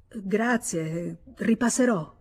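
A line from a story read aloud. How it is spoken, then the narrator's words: Confused stammer. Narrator (Italian): Senza capir ciò che stava dicendo, balbettò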